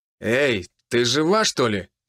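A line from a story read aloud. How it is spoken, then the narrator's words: Rough question. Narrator (Russian): грубо спросил Том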